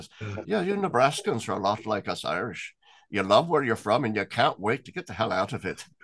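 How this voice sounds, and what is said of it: Bad put-on Irish accent. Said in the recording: “Pardon my bad Irish accent.”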